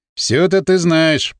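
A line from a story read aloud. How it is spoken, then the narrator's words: Grumbling. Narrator (Russian): проворчал Валерий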